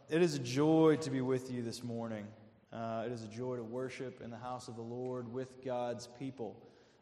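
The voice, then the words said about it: Slight Southern American accent. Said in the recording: “I talk different than your pastor... When I talk about Jesus, I get a little Southern. It comes out when I speak, and I can't get rid of that accent”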